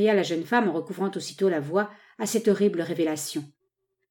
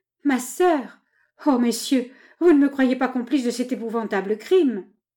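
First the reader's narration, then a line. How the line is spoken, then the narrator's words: Sobbing, pleading. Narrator (French): répétait à travers ses sanglots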